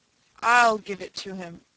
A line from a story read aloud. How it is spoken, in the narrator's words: said Mary